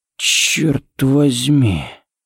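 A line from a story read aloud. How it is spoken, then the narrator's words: Breathed close to ear. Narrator (Russian): выдохнул Харри у него над ухом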